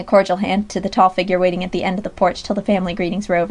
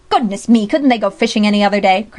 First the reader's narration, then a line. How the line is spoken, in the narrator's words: cried the old gentleman irascibly